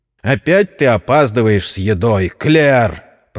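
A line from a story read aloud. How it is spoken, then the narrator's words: Grumbling. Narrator (Russian): проворчал Джон Мэзи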